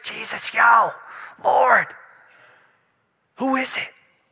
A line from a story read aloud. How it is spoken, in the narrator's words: he whispers